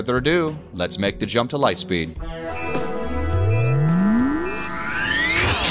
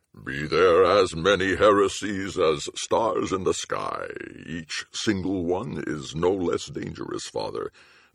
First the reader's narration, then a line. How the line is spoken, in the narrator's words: the Archbishop said solemnly